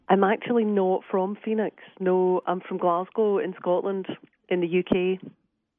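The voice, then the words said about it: Scottish accent. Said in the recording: “she doesn't sound like she's from around here ... I have a Scottish accent kind of by default ... I sound as if I grew up there”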